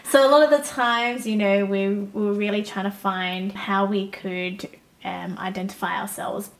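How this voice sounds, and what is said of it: Australian accent. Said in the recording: “born and raised here ... in Australia ... If you can't tell by the accent”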